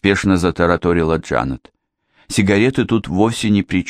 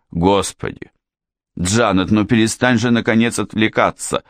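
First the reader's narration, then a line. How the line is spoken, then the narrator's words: Exclaiming. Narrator (Russian): воскликнул Уайт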